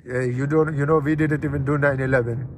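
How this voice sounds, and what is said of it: Put-on Iranian accent, Australian tinge. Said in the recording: “Why's is Arab accent so hard? ... there you go. That's like an Iranian that's moved to Australia.”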